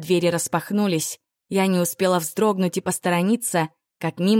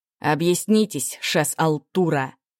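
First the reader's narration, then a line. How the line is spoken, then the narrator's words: Sharp scathing tone. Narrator (Russian): Резким, обжигающим тоном хлестнул собеседника Алурен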